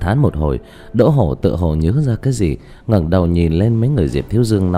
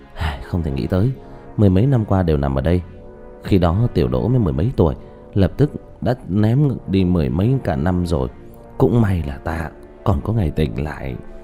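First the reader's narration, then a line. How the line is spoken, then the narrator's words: Sighing. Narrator (Vietnamese): thở dài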